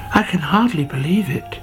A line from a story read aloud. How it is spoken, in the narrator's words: he whispered to himself